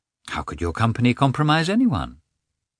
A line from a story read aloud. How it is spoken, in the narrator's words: said Anna, in an indifferent tone, as if she cared very little about it